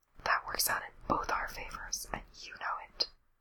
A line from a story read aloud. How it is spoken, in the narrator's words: Lindsay whispers in her ear